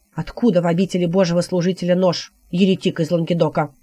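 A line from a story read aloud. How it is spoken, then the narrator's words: Scoffing grunt. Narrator (Russian): хмыкнул отшельник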